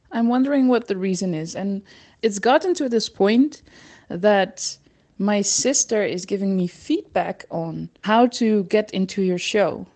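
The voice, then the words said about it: Dutch accent in English. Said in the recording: “my Dutch accent, because Dutch accents are not cute”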